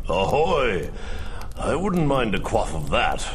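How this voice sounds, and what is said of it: Drunk-sounding voice. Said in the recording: “you sound drunk.”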